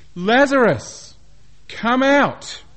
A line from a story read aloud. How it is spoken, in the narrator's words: He then cried out in a loud voice